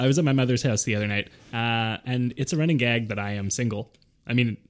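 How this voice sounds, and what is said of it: Usual voice. Nothing is said of it.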